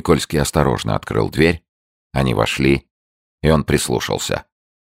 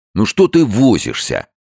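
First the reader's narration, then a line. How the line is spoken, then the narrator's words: Irritated. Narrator (Russian): раздраженно сказал кто-то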